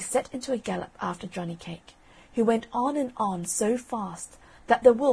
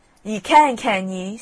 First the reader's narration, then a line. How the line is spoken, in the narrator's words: snarled the wolf